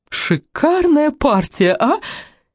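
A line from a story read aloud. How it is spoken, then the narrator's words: Giggle. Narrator (Russian): хихикнула Мелинда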